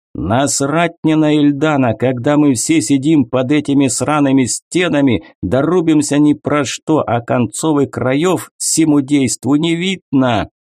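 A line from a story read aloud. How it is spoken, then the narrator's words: Yelling. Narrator (Russian): орал Загима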